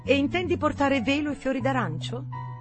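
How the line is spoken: Shrill voice. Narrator (Italian): disse con voce stridula

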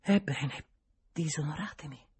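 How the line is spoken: Sighing. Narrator (Italian): disse con un sospiro

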